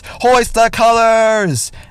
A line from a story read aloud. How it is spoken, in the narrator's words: she shouts